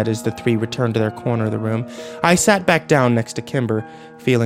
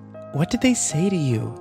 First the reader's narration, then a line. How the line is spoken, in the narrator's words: Kimber asked nervously